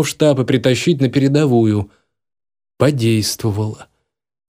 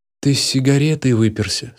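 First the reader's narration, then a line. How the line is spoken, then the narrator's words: Weary question. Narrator (Russian): спросил я устало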